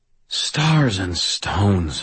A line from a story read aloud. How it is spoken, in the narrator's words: I sighed